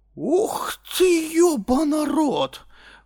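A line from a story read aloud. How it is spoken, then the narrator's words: Breathless exhale. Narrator (Russian): выдохнул он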